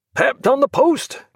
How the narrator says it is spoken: cried the Admiral

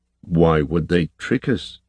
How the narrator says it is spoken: He asked, his voice grave

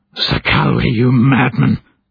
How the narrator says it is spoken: Beshai screeched

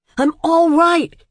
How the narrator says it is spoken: he shouted as loud as he could

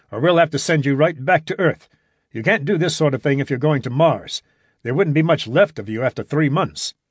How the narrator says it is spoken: ordered the doctor sharply

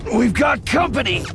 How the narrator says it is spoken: he shouted

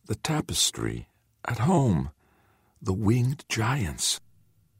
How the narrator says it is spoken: the young man whispered

